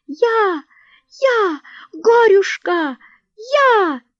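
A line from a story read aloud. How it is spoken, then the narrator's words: Loud ringing squeal. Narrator (Russian): звончей всех визжала хромая Анютка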